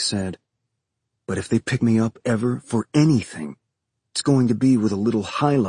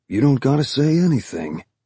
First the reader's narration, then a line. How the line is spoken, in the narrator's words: Timmy said, his tone almost apologetic